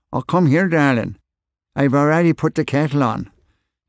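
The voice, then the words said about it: Broad Belfast accent. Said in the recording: “a broad Belfast accent”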